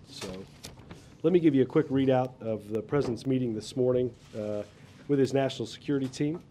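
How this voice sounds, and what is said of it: Scratchy hoarse voice. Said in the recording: “apologize in advance for my voice ... it is still a little on the scratchy side”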